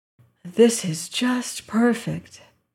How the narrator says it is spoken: she sighed

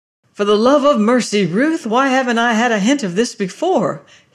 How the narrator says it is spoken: he cried

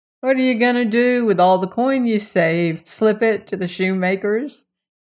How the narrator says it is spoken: he laughed

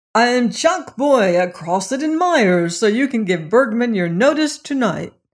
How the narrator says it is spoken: He burst in upon Lorelei like a gale, shouting

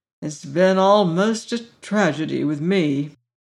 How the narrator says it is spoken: said the doctor gloomily

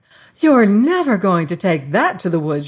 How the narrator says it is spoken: she cried

